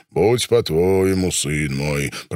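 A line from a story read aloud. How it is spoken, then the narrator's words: Deep bass voice. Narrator (Russian): пробасил Покровский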